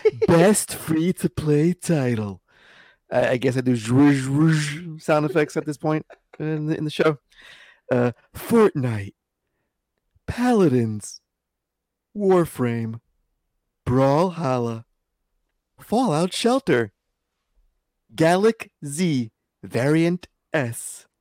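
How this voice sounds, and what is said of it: Imitates another person's voice. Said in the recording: “my best Steven asshole voice impression”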